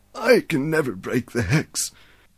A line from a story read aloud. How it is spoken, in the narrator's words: the old man said sadly